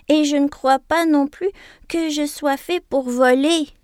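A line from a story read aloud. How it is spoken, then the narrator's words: Quavering voice. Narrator (French): prononce-t-il d'une voix chevrotante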